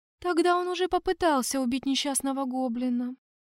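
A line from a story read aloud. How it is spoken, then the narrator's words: Lifeless female elf voice. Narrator (Russian): безжизненным голосом произнесла эльфийка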